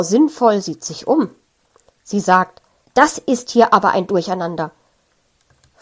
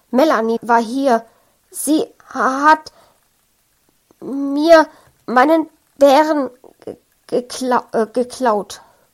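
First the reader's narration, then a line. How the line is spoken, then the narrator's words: Stuttering. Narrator (German): stottert Frank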